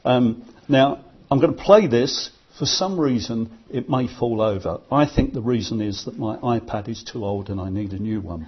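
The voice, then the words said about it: London accent. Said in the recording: “hasn't got a London accent”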